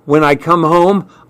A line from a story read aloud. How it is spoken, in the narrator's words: answered shakily